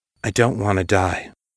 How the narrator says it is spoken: Kai said softly

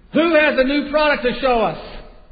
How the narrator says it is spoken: the executive over sporting goods screamed

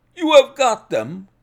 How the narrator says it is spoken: we cried, all three

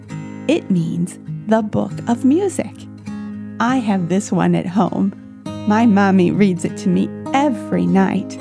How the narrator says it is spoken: Henry giggled and said

